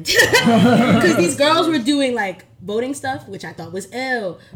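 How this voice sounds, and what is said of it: New York accent. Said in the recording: “my New York accent, I hear from people all the time. They're like, It's New York, but it's definitely something else.”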